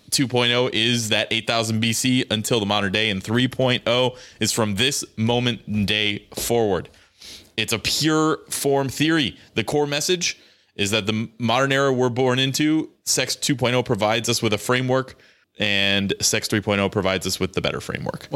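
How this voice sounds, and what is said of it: Announcer voice. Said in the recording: “I enjoy your announcer voice”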